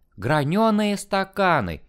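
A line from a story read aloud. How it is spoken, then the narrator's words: Exclamation. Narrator (Russian): воскликнула Ксения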